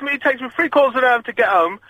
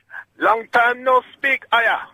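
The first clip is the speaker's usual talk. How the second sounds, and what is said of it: Put-on foreign accent. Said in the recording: “Good accent. It's only a little bit racist.”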